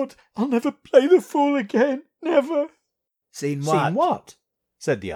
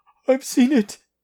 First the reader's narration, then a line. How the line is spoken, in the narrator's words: said Hurst, with a hysterical sob